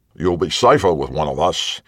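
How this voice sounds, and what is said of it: Rougher accented male character voice. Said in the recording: “Cox's accent was rougher, his manner straightforward. Not a gentleman.”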